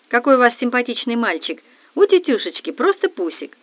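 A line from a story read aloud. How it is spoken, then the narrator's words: Feigned exclamation. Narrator (Russian): лицемерно воскликнула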